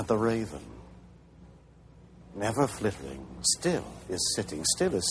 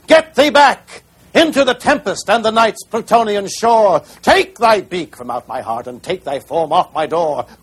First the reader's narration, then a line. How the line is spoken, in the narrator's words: shrieked